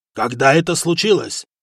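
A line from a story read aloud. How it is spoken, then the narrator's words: Roaring khan. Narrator (Russian): взревел хан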